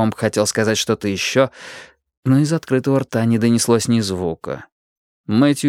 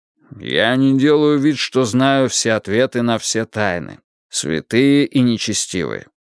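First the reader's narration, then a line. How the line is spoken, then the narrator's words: Even-voiced reply. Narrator (Russian): ровным голосом ответил магистрат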